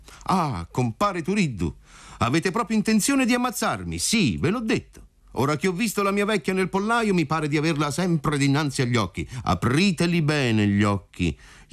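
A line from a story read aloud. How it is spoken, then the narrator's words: Shout. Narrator (Italian): gli gridò compar Alfio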